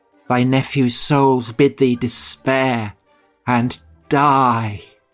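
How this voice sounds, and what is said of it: Creepy, wet boy's voice. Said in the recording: “a devastating impersonation of... a creepy boy... That was wet. That was Fotherington Thomas.”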